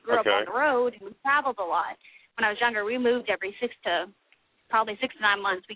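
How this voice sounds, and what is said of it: Southern American accent. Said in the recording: “you've got the accent, too. You've got the southern accent”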